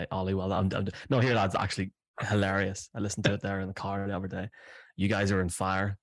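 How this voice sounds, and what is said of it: Irish accent. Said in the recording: “because it's said in your Irish accent, one can no, not know whether you're, you know, being serious”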